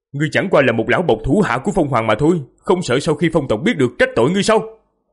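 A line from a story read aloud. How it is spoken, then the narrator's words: Loud shouted question. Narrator (Vietnamese): Diệp Phàm lớn tiếng quát hỏi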